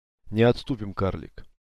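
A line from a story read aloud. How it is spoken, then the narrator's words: Quiet. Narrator (Russian): тихо произнес Алистан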